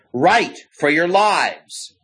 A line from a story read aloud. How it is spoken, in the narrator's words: a shout from the woods ahead